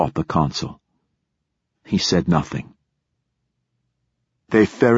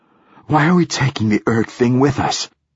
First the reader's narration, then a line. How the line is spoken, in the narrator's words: gasped Hoyt